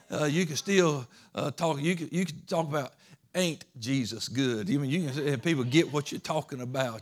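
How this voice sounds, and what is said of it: Southern US Georgia accent. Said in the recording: “you can have a good old hick accent ... I can say it in this good old Georgia Southern accent, whatever it is. That I have”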